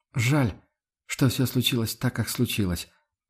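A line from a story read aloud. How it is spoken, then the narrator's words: Quiet. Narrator (Russian): проговорил он тихо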